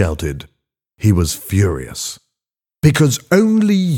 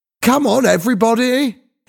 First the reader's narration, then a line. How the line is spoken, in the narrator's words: He shouted